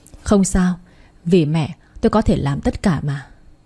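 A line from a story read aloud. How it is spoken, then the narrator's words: Sighing. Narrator (Vietnamese): Thế Phong thở dài rồi nói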